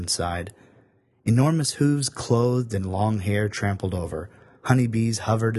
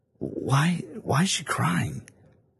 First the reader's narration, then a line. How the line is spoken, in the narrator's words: Samson breathed out, flapping those big lips